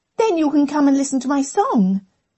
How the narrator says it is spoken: said Emma brightly

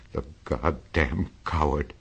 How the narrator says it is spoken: he whimpered

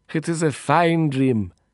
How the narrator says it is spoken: he sighed happily

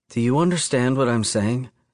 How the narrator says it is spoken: She asks, her voice breathless and low

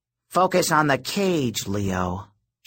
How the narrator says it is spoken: she grumbled

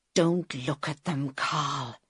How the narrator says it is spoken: he whispered

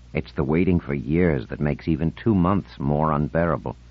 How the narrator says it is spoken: muttered

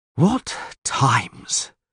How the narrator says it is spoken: sighed the Castellan

